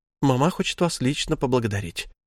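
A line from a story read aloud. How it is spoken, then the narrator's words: Whisper. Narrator (Russian): шепнула она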